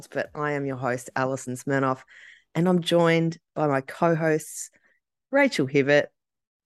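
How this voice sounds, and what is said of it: Voice affected by a cold. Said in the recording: “I apologise for my voice. I have a bit of a cold”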